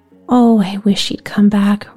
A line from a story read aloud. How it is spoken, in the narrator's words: Rosie sighed